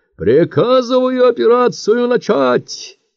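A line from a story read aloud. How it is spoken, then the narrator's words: Loud bass voice. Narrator (Russian): громко пробасил Ващукин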